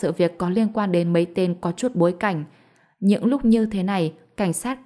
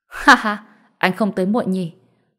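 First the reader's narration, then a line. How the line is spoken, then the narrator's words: Loud laughing speech. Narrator (Vietnamese): Thượng tá cười lớn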